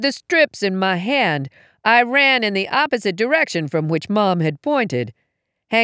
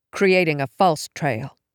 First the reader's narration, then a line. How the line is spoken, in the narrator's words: I muttered